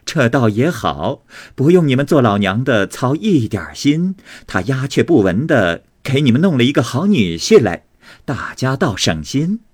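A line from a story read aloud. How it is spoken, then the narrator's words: Teasing laughter. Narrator (Chinese): 凤姐只瞅着他嘻嘻的笑，向周瑞家的笑道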